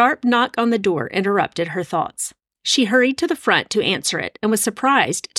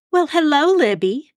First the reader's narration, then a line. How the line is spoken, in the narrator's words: Jean said in her sugary voice